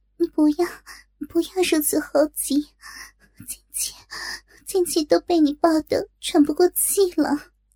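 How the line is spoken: Breathless panting. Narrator (Chinese): 只是喘息道

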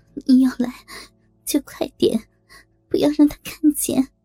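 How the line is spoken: Hesitant, then resolute. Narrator (Chinese): 杨璐一愣，咬了咬牙

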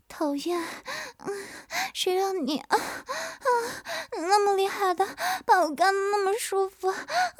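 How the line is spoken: Feigned breathless panting. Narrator (Chinese): 曲颖假装气喘吁吁的道

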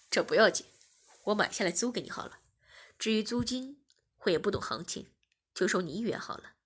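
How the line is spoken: Smiling. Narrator (Chinese): 我笑了笑，便说

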